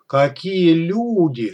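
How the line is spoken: Strained, dragging drawl. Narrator (Russian): с натужной кассетного плеера на последнем издыхании батарейки протянул Боря

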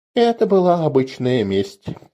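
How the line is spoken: Quiet. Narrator (Russian): тихо произнес Леур

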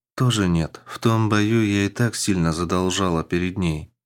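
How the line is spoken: Sad female warrior. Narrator (Russian): грустно произнесла воительница

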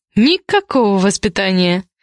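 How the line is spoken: Giggling. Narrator (Russian): хихикает Дуся

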